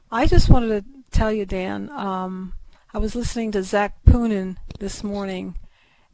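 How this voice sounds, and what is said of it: Hoarse voice. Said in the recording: “I'm a little hoarse tonight”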